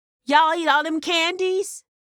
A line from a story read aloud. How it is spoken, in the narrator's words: Ann yelled from the step